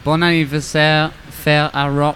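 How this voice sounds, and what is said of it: Put-on French accent. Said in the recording (French): “There's my French accent for you.”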